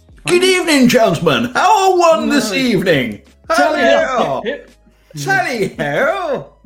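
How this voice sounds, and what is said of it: Affected posh English accent. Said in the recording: “that stupid affected accent”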